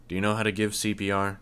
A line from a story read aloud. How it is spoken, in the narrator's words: I asked